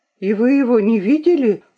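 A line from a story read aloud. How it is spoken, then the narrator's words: Anxious question. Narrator (Russian): взволнованно спросила Луиза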